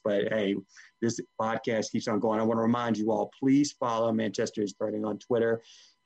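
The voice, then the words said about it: Strained, fading hoarse voice. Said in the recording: “I am currently losing my voice as I speak ... I'm beginning to lose my voice”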